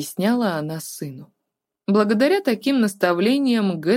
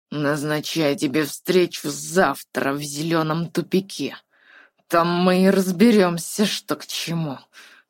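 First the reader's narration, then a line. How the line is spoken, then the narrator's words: Quiet furious growl. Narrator (Russian): тихим голосом прорычал Гэт, от неконтролируемой ярости сделавшись похожим на хищного зверя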